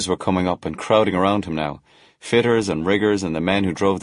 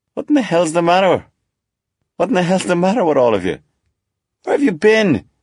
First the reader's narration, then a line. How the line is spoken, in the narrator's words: shouted